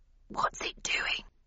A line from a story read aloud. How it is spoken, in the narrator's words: whispered Landon